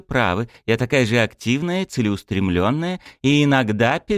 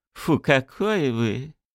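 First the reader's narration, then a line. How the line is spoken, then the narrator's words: Laughing. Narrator (Russian): смеялась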